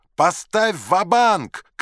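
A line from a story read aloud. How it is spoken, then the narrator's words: Shouting. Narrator (Russian): кричал Вулич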